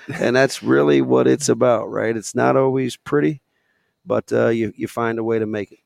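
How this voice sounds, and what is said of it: Worn-out, strained voice. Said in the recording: “as you can tell by my voice, I'm shot”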